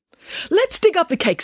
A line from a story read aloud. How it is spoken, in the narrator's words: said Nanny Piggins excitedly